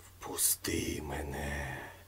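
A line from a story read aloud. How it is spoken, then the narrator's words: Whisper. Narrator (Ukrainian): прошепотів голос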